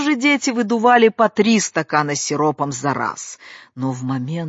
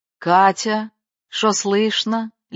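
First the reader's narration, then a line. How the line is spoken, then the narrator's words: Lazy question. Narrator (Russian): лениво спрашивала Циля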